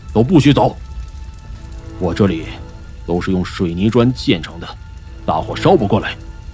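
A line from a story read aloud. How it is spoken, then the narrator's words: Stern, sharp. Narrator (Chinese): 于胡子厉声说道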